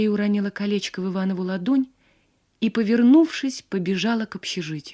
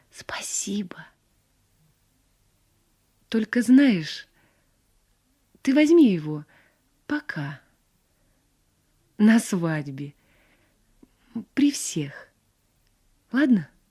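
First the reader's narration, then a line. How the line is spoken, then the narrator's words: Whisper. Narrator (Russian): Мария шепнула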